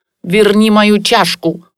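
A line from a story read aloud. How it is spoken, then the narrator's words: Angry old woman. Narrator (Russian): злобно сказала бабуля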